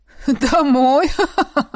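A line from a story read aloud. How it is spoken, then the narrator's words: Laughing man. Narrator (Russian): Мужчина рассмеялся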